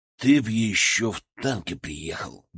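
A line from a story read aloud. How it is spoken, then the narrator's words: Gruff mutter. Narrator (Russian): буркнул Макаров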